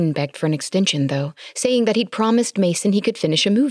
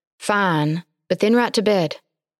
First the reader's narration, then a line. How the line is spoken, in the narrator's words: With a feigned sigh of reproval, she said